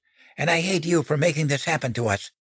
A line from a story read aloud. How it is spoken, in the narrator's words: hissed